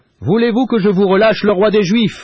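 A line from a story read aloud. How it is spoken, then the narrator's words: Shouted. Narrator (French): leur crie Pilate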